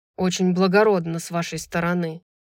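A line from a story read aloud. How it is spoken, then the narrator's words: Grumbling. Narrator (Russian): проворчал Хант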